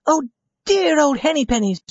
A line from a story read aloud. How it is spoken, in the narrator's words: she cried